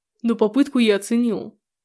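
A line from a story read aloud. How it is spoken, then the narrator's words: Hoarse mutter. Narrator (Russian): Пробормотал он сипло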